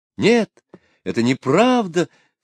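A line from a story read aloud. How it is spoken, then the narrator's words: Exclamation. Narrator (Russian): воскликнула Аделина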